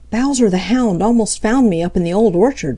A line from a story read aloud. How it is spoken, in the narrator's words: panted Peter